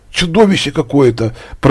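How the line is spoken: Mumbling. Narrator (Russian): пробормотала Женька

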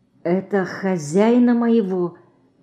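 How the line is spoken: Barely audible question. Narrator (Russian): едва слышно спросил Ленька

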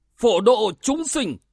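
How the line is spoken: Shrill shout. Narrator (Vietnamese): một tiếng quát lanh lảnh

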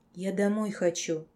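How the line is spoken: Quiet confession. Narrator (Russian): тихо призналась я

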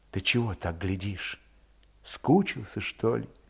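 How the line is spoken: Embarrassed whisper. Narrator (Russian): Наталья вспыхнула под его внимательным взглядом, осилив смущение, шепнула

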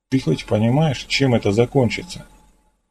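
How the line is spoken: Quiet question. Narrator (Russian): тихо спросил

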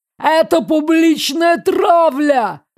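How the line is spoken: Desperate yell. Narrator (Russian): заорал медведь в попытке спасти свою шкуру

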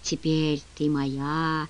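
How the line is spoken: Whisper. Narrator (Russian): шептал

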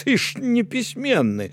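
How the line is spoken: Wailing. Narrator (Belarusian): залямантаваў Равуні

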